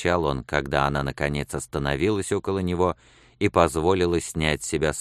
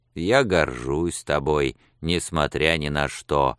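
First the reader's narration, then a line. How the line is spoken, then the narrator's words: Grumbling. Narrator (Russian): сказал он еще более ворчливым тоном, чем прежде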